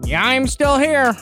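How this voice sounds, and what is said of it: Imitates another person's voice. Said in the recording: “Oh no, that's a fake. That's a Stone impersonation.”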